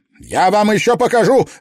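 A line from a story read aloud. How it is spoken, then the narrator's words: Bark. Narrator (Russian): рявкнул он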